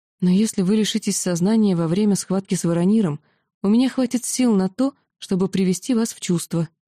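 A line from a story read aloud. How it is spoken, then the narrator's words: Timid. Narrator (Russian): робко сказала я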